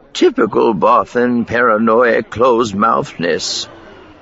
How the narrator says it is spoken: Miranda grunted

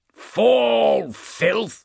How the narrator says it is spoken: He snarled

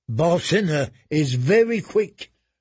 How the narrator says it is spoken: Rezdak said

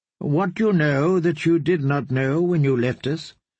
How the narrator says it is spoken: the kindly man would ask

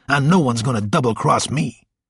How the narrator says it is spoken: snarled

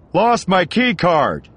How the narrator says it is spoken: he shouted across the shaft

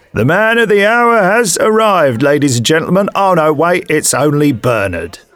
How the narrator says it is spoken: The landlady, Beatrice, bellowed at the top of her voice

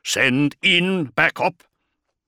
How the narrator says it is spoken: growled

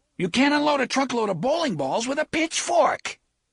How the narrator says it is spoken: A terrible shriek of mingled anger and agony

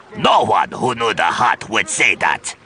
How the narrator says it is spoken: he growled

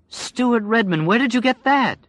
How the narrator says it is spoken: She asked, happily surprised

